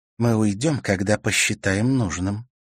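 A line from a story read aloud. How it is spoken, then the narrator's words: Calm reply. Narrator (Russian): спокойно ответила Серафима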